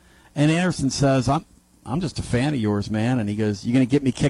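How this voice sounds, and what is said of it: Usual voice. Nothing is said of it.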